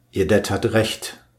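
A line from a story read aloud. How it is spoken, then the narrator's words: Plain. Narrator (German): sagte Pearl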